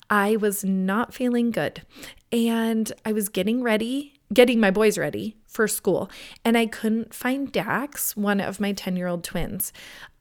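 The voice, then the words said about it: Voice still rough from illness. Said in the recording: “I know you can still hear the lingering in my voice, but last week I had absolutely no voice.”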